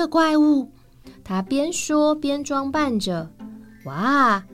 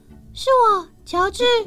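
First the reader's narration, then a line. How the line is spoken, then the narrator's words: Involuntary loud cry. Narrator (Chinese): 爱德蒙 忍不住大叫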